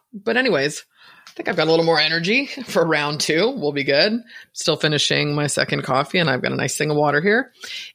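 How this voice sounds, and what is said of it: Scratchy, hoarse voice. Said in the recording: “excuse my voice ... I got over a cold like a month ago. And it's just like this scratchy thing won't leave ... bear with me with my voice”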